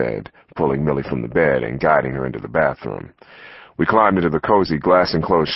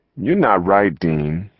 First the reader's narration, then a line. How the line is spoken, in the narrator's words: she said